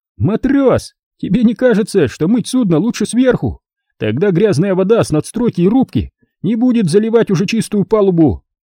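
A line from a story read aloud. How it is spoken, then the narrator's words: Squeaky voice from behind. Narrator (Russian): пропищал за моей спиной незнакомый голос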